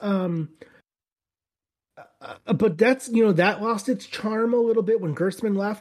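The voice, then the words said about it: Strained, fading voice with cough. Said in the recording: “I coughed. I'm losing my voice.”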